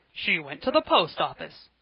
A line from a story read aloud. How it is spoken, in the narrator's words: fiercely, as if they had contradicted him